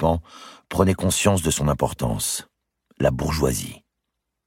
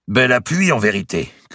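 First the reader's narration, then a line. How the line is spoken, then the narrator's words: Shouting. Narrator (French): cria Valois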